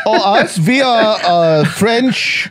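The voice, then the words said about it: Put-on German accent. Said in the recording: “the guy in charge speaks in a German accent.”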